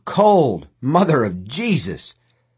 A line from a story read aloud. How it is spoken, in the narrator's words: Deke hit the water and bellowed